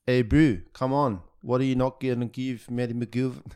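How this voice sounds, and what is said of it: Poor put-on South African accent. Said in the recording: “That's a terrible accent.”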